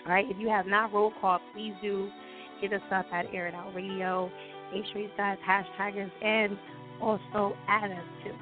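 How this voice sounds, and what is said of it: Weak, recovering voice. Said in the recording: “my voice is still like, you know, trying to come back.”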